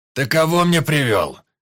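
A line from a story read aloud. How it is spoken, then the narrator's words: Bark. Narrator (Russian): рявкнул горец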